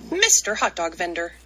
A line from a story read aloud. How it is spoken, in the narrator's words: Amu exclaimed